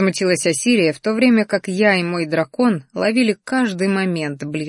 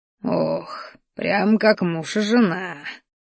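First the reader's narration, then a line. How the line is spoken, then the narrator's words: Contented sigh. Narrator (Russian): довольно вздохнул Рахтар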